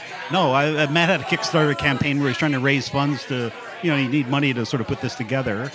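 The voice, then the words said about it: Southern Indian English accent. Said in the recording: “where's your accent from? ... I'm from southern India.”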